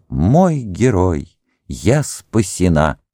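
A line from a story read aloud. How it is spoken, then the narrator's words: Young woman's exclamation. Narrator (Russian): Девушка, которую звали Урсула, воскликнула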